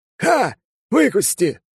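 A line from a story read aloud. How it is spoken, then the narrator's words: Triumphant shout. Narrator (Russian): торжествующе крикнул он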